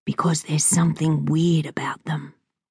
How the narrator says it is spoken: whispered Zeke

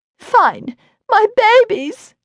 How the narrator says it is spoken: cried

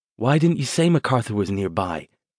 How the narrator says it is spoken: asked

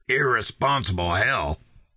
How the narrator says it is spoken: replied in an angry voice

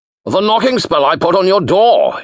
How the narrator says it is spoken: he bellowed, as if talking into a gale

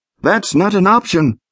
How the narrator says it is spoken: shouted back

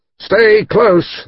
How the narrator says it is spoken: shouting

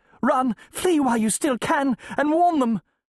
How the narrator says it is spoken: gasps

